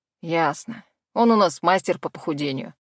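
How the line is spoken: Amused snort. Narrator (Russian): хмыкнул мужчина

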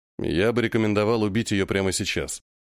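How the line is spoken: Calm statement. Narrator (Russian): спокойно заявляет третий

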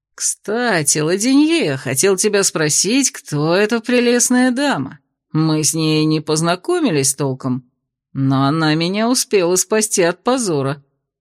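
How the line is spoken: Purring. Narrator (Russian): промурлыкал Кирсан

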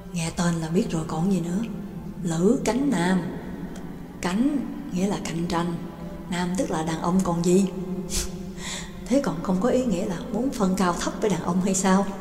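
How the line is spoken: Conspiratorial hushed voices. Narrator (Vietnamese): Hai người càng nói càng nhỏ giọng, giống như hai kẻ làm chuyện xấu đang ngấm ngầm bàn luận

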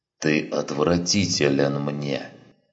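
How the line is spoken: Hissed. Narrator (Russian): прошипел Сарен

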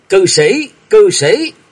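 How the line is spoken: Trembling frantic scream. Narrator (Vietnamese): Thạch Mộng rung lên gào điên cuồng

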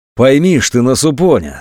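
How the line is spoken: Calm, almost tender. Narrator (Russian): спокойно и почти ласково обратился шатун к Анатолию

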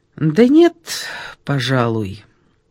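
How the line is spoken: Thoughtful. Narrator (Russian): задумчиво произнесла Ольга

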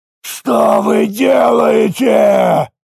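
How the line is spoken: Roared. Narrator (Russian): взревел Каек

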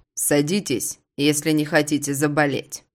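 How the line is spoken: Commanding tone. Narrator (Russian): приказным тоном произносит он

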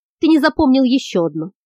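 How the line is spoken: Plain. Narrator (Russian): сказал Локус

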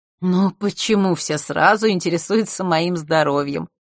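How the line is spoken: Feigned sigh. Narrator (Russian): Тренер наигранно вздохнула

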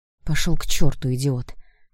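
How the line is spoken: Quiet. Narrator (Russian): негромко сказала я

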